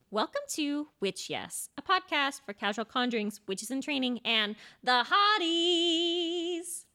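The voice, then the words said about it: Exaggerated annoying podcast-host voice. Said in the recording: “the most annoying podcast voice”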